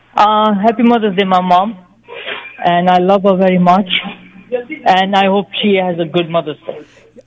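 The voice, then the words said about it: Speaks English with an accent. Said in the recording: “your accent, are you Middle Eastern?”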